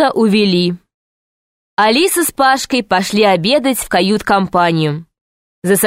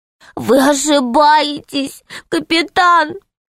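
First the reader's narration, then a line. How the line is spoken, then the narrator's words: Said sadly, tearfully. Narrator (Russian): сказал печально крыс, вытирая слезы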